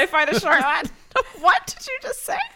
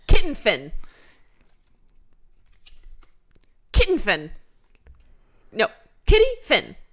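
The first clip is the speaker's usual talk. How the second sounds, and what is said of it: Fake put-on accent. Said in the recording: “my own fake accent”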